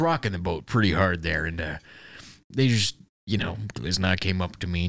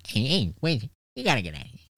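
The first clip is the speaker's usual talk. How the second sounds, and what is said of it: Imitates another person's voice. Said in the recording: “Are you making fun of his voice?... my best impression”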